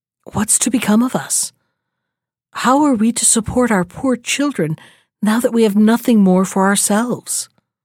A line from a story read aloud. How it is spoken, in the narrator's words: full of cares and worry, he sighed and said to his wife